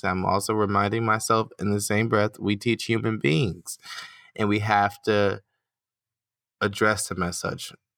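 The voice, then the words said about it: American accent. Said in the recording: “my American accent, you know, leads me to like drawing things out and emphasizing the wrong syllable or the wrong sound”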